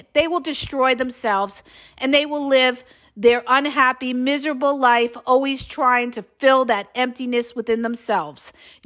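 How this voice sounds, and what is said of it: Voice giving out, strained. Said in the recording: “I'm losing my voice. I haven't stopped today.”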